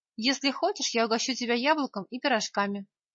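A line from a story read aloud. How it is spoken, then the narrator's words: Plain. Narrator (Russian): сказал я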